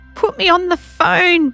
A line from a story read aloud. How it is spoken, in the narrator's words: begged Zen